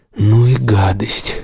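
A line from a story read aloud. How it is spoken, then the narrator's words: Forced out. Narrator (Russian): выдавил он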